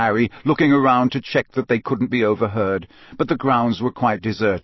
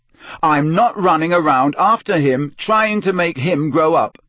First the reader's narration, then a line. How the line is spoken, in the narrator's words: Harry said so loudly that several owls in a nearby tree took flight in alarm